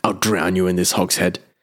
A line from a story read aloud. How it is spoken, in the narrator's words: he growled